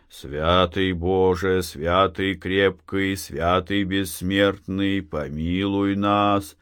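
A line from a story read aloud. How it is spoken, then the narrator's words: Deep drawn-out chant. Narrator (Russian): Захар тянул густым голосом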